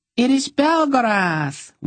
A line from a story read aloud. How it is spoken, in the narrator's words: one of the dryads squealed